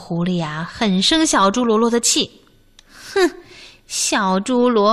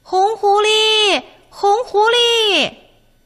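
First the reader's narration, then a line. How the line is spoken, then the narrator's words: Shouting. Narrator (Chinese): 他们朝红狐狸喊开了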